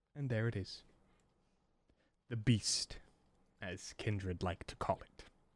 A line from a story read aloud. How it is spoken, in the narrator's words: Sun calmly